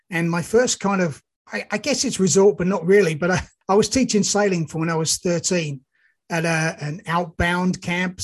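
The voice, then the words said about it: Slight English accent. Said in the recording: “I'm detecting a bit of UK in your accent ... It is definitely a bit of UK. I was born and bred in the UK, just outside London.”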